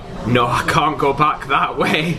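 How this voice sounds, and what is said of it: Attempted Scottish accent sounding Yorkshire. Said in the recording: “Oh, it's Yorkshire now.”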